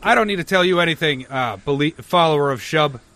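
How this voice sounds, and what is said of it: Character voice for game NPC. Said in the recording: “I'm doing a voice of another character, but just a little bit different”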